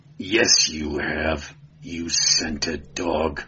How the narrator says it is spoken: snarled the Cimmerian

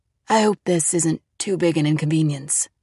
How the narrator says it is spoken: Rivera said softly

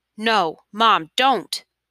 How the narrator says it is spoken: Mahmoud cried

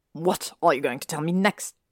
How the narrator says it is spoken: Draco said with a sneer, suddenly more Malfoy than Harry had seen since before he'd moved in

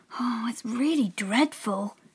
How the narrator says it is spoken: muttered to herself

